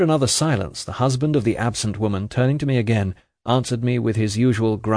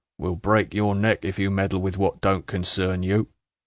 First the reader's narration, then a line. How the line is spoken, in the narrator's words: said her husband, muttering an imprecation with slow emphasis